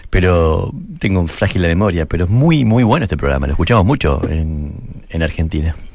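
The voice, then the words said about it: Argentine Spanish accent. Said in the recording (Spanish): “es argentino ... Tu acento es súper... ... Tiene mucho matiz.”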